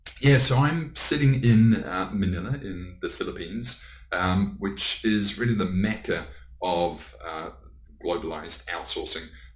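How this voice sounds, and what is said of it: English accent. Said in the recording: “you obviously have got an English accent”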